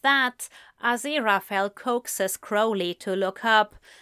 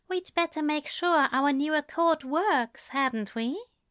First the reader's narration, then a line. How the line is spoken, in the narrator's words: says softly